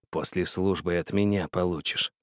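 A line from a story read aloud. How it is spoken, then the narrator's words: Hissing. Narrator (Russian): Гришка прошипел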